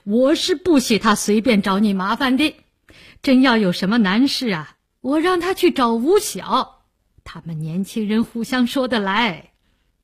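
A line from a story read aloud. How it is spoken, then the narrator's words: Laughing. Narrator (Chinese): 梅启良笑道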